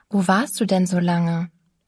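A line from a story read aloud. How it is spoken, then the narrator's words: Plain. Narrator (German): fragte ich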